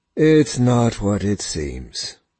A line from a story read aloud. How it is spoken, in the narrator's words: Tempest says, sighing